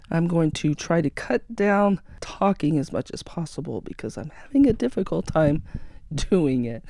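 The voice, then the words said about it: Hoarse, raspy voice. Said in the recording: “apologize for my voice, as I've been sick with a sore throat for the past week ... It's a bit raspy.”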